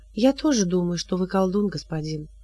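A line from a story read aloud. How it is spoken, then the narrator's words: Calm reply. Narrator (Russian): спокойно ответила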